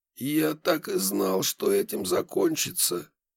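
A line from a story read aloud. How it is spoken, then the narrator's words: Old man, exhaled. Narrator (Russian): выдохнул старик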